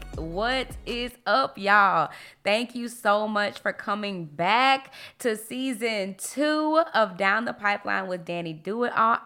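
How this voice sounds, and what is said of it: Happy, excited voice. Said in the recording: “If you couldn't tell by my voice, I am so happy.”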